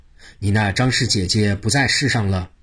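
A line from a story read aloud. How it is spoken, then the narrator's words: Long sigh. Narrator (Chinese): 张良一声长叹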